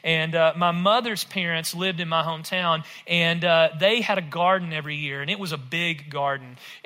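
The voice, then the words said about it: Rural West Tennessee accent. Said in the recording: “I grew up in rural West Tennessee, if my accent doesn't give it away”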